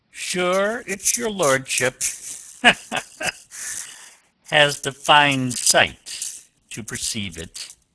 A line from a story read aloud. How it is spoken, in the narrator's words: laughed the captain